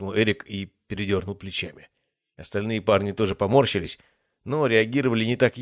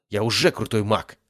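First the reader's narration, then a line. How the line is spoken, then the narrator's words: Snapping retort. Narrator (Russian): огрызнулся Эрик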